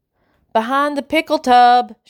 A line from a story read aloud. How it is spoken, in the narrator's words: shouts Duane